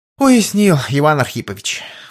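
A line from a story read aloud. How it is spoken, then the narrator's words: Sighed. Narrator (Russian): вздохнул Кузьма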